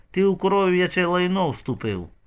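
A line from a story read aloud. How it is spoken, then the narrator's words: Calm reply. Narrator (Ukrainian): спокійно відповів Ігор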